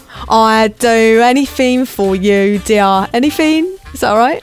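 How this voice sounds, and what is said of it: Put-on East End Cockney accent. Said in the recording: “So where's the East End accent? ... It's not one of my best, actually.”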